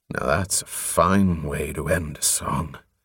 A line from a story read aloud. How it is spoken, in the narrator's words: In relief, Covenant murmured